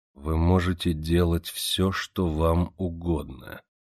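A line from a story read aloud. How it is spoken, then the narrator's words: Slow. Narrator (Russian): медленно проговорил он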